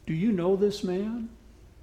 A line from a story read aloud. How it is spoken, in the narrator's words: she said gently